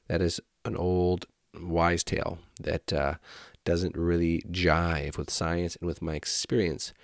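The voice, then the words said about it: Congested voice with a head cold. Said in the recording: “you could probably hear it in my voice, in my head. I've got a cold”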